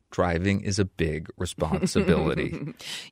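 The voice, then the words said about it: Mock stern dad voice. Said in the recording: “in your best dad voice,”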